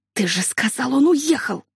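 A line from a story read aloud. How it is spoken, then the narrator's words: Hissed. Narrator (Russian): прошипела Лили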